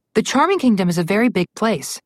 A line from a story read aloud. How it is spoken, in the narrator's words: Alex said